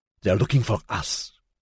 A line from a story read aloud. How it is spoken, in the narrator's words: he hissed